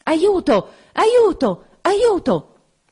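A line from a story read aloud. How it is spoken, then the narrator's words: Muffled rapid cries. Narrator (Italian): Una voce soffocata gridò tre volte rapidamente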